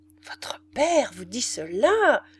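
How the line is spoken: Exclamation, quickly suppressed. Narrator (French): s'écria la grande femme avec un accent qu'elle réprima aussitôt

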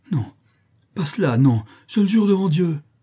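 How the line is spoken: Wretched man exclaiming. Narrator (French): s'écria le misérable

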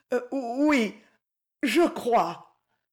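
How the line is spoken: Unsteady young boy stammering. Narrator (French): balbutia le jeune garçon qui chancelait

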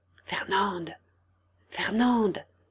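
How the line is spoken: Soft call. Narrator (French): appela doucement Delavaux

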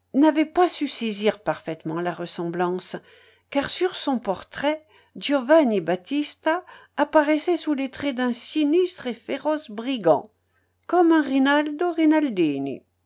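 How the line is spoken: Sighing. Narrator (French): ajouta Madame Roselli en soupirant

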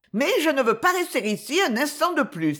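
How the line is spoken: Exclaimed. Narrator (French): s'écria Gwen

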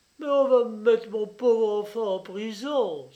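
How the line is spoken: Exclaiming. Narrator (French): s'écria-t-elle

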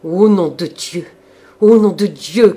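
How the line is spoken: Thundering shout. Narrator (French): criait le frère d'une voix tonnante

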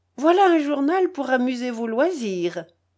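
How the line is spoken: Laughing woman. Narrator (French): dit-elle en riant

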